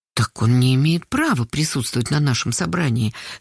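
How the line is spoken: Very quiet. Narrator (Russian): совсем тихо сказала Карпушкина

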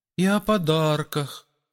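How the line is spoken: Timid request. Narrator (Russian): робко попросил кто-то

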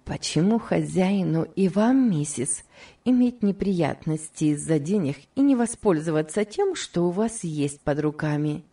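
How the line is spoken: Laughing. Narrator (Russian): И Хлоя опять рассмеялась

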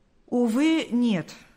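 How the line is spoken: Plain. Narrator (Russian): ответил Паисий

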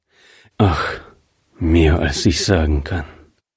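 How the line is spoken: Gloomy murmur. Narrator (German): murmelte er düster

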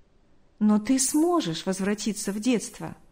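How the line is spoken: Smiling tone. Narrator (Russian): улыбнулся

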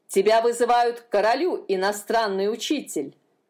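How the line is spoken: Barking. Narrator (Russian): рявкнул он

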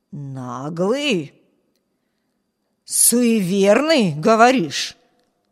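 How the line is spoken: Hoarse voice at the door. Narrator (Russian): Прохрипел голос у медленно открывающейся двери

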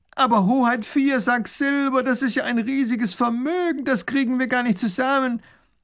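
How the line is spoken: Calling out. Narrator (German): ruft der Baron

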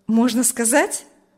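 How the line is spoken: Cheerful, smiling question. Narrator (Russian): спросил Урзин, уже весело улыбаясь

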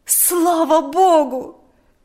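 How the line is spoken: Exclamation. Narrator (Russian): воскликнула она

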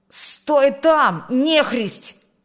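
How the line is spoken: Shouted. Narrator (Russian): крикнул он

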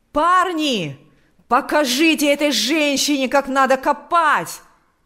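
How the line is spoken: Shouting. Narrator (Russian): кричал он

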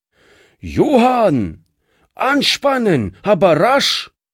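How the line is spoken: Calling across a yard. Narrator (German): rief er über den Hof hinüber

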